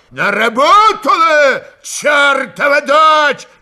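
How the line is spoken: Yelling. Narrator (Russian): заорал он

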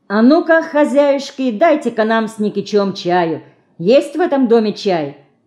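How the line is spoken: Uncle, deliberately loud, cheerful. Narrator (Russian): нарочито громко и весело спросил дядя Лёка

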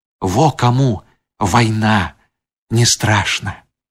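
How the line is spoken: Loud smirking whisper. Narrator (Belarusian): ухмыльнуўся і даволі голасна шапнуў

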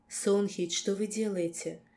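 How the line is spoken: Weak whisper. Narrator (Russian): прошептала я, бессильно

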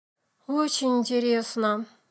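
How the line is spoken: Sad. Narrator (Russian): грустно сказала мама

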